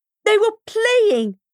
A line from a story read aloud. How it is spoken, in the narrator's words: shouted